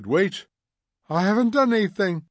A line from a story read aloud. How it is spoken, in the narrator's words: cried the old man, trembling